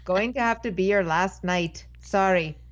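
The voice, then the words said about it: Poor attempt at Irish accent. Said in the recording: “he's Irish ... I can't do an Irish accent ... That was a little bit of Scottish in there and maybe Italian accent.”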